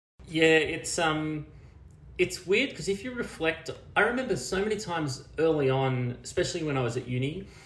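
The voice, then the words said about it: Australian accent. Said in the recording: “We can obviously hear your Australian accent.”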